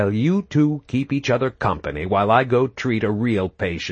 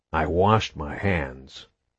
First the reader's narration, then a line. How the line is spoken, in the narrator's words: Phoenix said, his voice like a dead grub being dragged over gravel